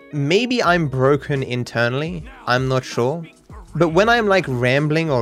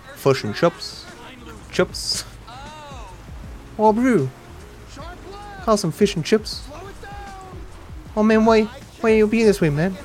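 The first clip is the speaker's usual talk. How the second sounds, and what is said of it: Put-on New Zealand accent. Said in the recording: “Can I do a New Zealand accent? ... I tried, chat. I tried.”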